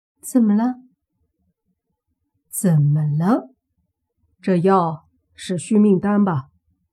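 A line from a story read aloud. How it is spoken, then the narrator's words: Cold. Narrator (Chinese): 莫凡冷冷的说道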